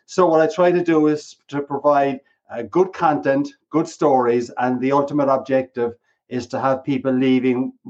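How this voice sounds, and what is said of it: Irish accent. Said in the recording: “with the accent, you didn't start in Chicago ... Irishman Speaks”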